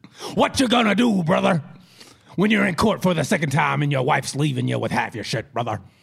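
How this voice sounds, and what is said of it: Poor imitation of another person's voice. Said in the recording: “Of all the impressions you do, brother, this is the worst one ... I'm Hulk Hogan ... You sound like a white guy.”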